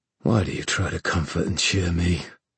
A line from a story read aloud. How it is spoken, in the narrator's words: Kieran said in a dry voice, as if his throat ached